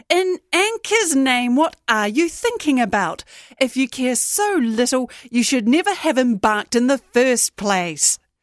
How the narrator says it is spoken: Teresa Zeleny shouted across their voices

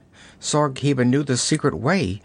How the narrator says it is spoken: she gasped

